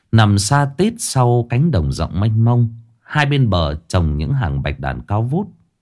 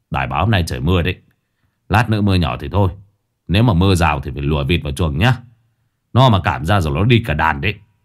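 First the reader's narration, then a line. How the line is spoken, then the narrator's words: Grumbling. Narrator (Vietnamese): anh Kiên đã cằn nhằn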